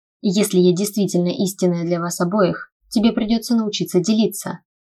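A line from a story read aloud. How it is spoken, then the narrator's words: Confiding tone. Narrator (Russian): доверительным тоном сообщила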